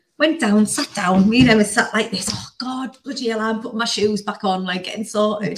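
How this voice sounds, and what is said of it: Strong Northern English accent. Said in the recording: “me and ... full on Welsh. Not Geordie, but more like very strong Northern accent. We're like dead loud talking.”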